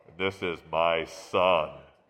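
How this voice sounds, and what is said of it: Imitates the voice of God. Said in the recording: “I could probably do that voice pretty well.”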